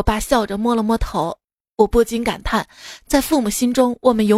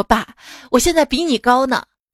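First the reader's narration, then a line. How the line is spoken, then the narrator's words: Smiling. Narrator (Chinese): 我笑了笑说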